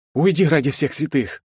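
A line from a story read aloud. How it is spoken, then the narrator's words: Groaning. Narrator (Russian): простонал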